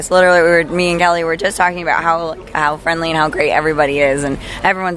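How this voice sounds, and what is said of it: Hoarse, strained voice. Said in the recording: “I've lost my voice now.”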